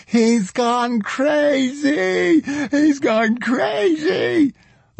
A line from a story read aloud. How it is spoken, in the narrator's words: Kempka screamed